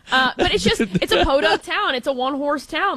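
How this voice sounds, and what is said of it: Put-on Chicago accent. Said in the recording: “I guess I can do my Chicago.”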